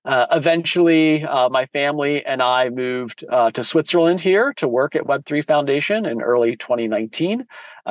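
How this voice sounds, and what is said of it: American English accent. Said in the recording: “You may tell from my accent, I am definitely not Swiss. I am American”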